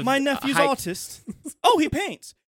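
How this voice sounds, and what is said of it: Posh upper-class British accent. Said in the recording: “super high-class British people ... making fun of the British accent”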